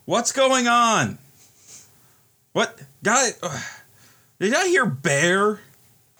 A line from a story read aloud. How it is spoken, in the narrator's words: somebody like yelling